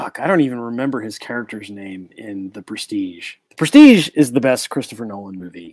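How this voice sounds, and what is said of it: Usual voice. Nothing is said of it.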